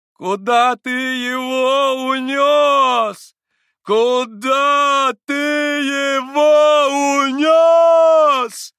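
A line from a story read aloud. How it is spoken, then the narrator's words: Heart-rending madwoman's wail. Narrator (Russian): Раздирающим голосом завопила помешанная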